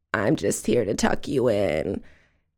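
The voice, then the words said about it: Creaky, cracking ghostly voice. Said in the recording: “says in a really creaky voice ... it was a little scratchier than that ... her voice was all cracky ... it was very cracky”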